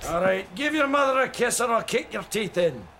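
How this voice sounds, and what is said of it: Decent put-on Scottish accent. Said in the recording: “put on a Scottish accent at the drop of a hat ... Is it a bad Scottish accent? ... It's not bad. It's not bad by any means.”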